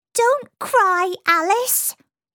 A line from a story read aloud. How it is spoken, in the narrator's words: squeaked a voice